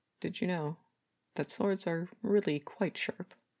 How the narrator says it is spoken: Branzy couldn't help the laugh that tried to escape him

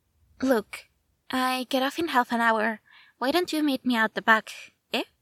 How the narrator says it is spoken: the mutter of

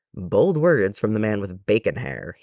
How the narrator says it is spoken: he said

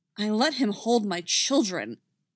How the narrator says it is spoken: Anakin says angrily

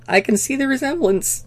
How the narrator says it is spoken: Carter said, her voice squeaking

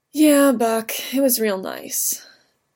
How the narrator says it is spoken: Steve said, but it came out a sigh

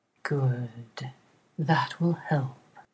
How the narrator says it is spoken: He purrs

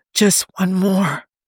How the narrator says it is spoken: Steve begged, his voice raw

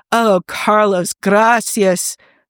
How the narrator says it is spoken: he moans salaciously

